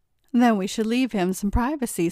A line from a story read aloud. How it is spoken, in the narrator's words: said Lauren